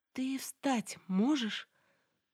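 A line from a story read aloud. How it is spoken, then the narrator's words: Trembling, frightened. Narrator (Russian): Повторила дрожащим голосом, ведь воображение нарисовало страшную картину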